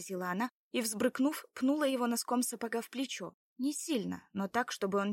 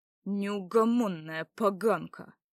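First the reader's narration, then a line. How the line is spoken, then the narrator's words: Furious, through gritted teeth. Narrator (Russian): процедил ей вслед Ярослав, сжимая в ярости кулак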